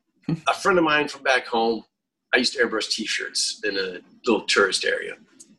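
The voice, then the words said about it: Southern US rural Florida accent. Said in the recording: “I don't know if you could tell by that accent, but I come from a redneck area in Florida.”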